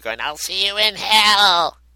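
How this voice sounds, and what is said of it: Little baby voice. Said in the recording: “you just hear a little baby voice”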